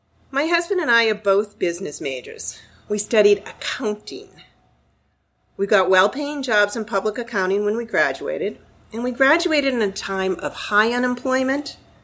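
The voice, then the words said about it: Boston accent. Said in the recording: “my accent is from Boston. I haven't lived there in about 40 years. I can't shake it.”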